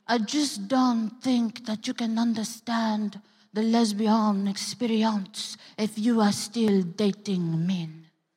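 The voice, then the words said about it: Bad put-on French accent. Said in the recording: “that was a horrible impersonation... she was French”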